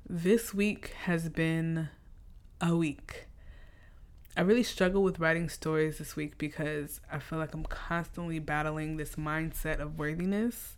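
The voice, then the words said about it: Scratchy, slightly deeper voice. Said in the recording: “I got a little bass in my voice today. I'm fighting off a cold and my voice is a little scratchy”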